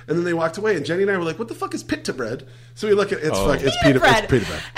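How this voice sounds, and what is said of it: Usual voice. Nothing is said of it.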